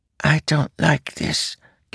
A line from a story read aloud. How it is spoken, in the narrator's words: whispered